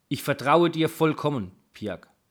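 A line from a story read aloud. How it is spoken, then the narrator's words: Plain. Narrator (German): sagte er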